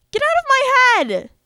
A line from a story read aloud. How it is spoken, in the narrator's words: I yelled suddenly